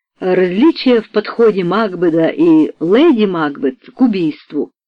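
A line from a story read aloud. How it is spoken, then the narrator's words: Plain. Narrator (Russian): ответила Джули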